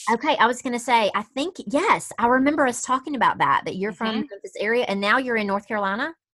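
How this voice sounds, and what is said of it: Regional accent. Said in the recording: “I just love to hear you talk because you sound like my people.”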